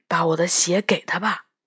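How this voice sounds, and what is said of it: Quiet, hushed voice. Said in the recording (Chinese): “小声的和我们商量”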